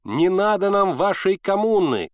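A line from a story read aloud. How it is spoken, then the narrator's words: Crowd shouting. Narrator (Russian): кричали они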